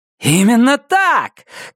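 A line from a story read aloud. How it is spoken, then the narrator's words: Shout. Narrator (Russian): крикнул Иви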